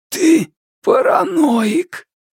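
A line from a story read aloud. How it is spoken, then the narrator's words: Hoarse rasp. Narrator (Russian): Хан прохрипел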